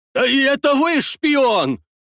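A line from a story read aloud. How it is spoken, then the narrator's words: Shouted. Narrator (Russian): выкрикнул Лопухин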